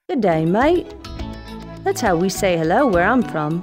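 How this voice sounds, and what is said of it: Mild put-on Australian accent. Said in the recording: “That's Australia, in case you didn't pick up on the accent ... obviously you're going for the cartoony exaggeration. Maybe just turn it up a few notches ... it's not exaggerated enough ... Crocodile Dundee”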